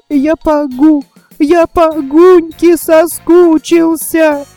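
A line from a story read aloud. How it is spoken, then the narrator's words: Sobbing while speaking. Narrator (Russian): он сказал, не переставая всхлипывать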